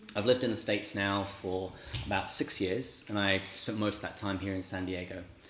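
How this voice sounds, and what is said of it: English accent. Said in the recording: “I am from England. ... people trying to guess my accent”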